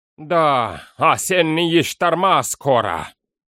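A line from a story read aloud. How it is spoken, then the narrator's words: Grumble. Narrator (Russian): проворчал Фарнак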